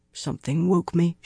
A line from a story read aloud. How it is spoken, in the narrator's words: she muttered